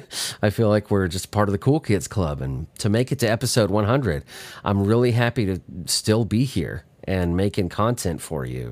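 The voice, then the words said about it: Slightly husky voice. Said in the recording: “my voice sounds a little husky, I'm getting over one of the worst flus I've ever had in my life”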